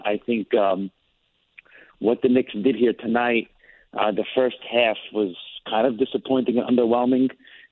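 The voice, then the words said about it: Hoarse voice from screaming. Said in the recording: “I don't know if you guys can tell from my voice, but I was at the Garden screaming my lungs out tonight”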